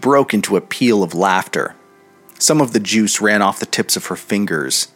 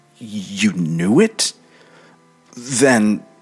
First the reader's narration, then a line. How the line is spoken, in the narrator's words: He stammered out